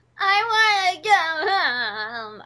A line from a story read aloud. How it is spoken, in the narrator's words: I whined and complained